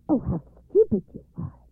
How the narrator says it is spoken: exclaimed Baba Yaga's daughter

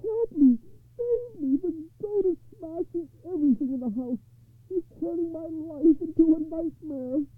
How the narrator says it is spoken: he wailed

